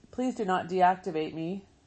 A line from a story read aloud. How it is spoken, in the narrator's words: she said